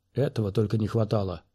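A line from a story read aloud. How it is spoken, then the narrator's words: Grumbling mutter. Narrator (Russian): буркнул солдат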